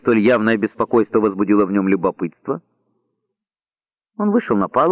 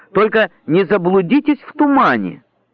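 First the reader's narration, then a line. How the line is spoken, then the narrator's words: Shouting after someone. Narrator (Russian): крикнул Деннис вдогонку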